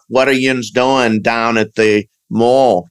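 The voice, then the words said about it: Pittsburgh accent. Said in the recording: “some sort of Pittsburgh accent. ... I kind of have that accent a little bit that comes out.”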